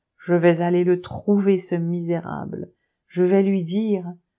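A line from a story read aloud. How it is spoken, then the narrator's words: Commanding interruption. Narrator (French): Elsa l'interrompit d'un ton impératif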